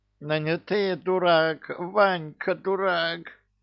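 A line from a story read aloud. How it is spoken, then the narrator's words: Nasal whine, pinched nose. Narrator (Russian): загнусавил Кощей, так как вместе с кольцом в крепких пальцах капитана оказались его ноздри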